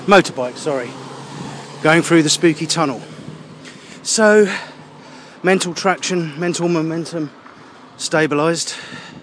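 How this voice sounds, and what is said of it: Out of breath, clipped syllables. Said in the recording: “Why am I talking clipped syllables? Probably because I'm out of breath.”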